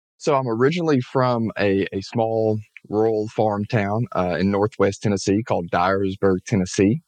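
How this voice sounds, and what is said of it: Southern American accent. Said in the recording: “So you are a Southerner. ... I am, if you can't tell by the accent.”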